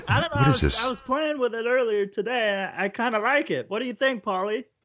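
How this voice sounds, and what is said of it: Kermit the Frog-style voice. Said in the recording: “What is this voice? ... You sound like Kermit the Frog.”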